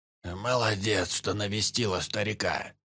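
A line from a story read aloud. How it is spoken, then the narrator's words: Creaky old voice. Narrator (Russian): проскрипел он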